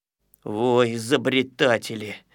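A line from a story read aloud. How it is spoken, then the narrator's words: Grumbling. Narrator (Russian): ворчал, конечно, ворчун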